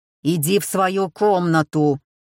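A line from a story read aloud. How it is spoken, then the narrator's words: Growl. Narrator (Russian): зарычал Филипп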